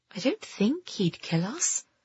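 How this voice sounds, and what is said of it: Small, timid voice. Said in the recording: “she said in a small voice.”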